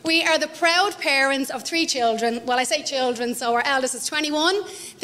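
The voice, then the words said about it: Thick Dublin Irish accent. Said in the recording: “our big, thick Dublin accent”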